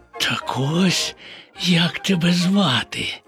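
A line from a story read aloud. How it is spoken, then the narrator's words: Whisper. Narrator (Ukrainian): прошепотів Боня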